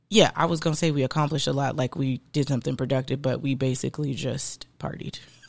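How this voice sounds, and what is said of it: Slight country accent. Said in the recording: “I'm a little country. Do I have a country accent to you? ... A little bit.”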